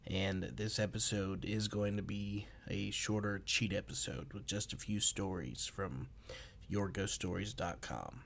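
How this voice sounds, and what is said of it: Slightly off, sick-sounding voice. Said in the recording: “I am still a little under the weather, so I apologize if my voice is a little off”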